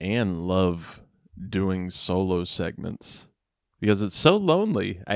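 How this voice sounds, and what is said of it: Usual voice. Nothing is said of it.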